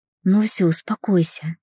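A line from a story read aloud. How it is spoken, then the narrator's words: Quiet. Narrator (Russian): тихо сказал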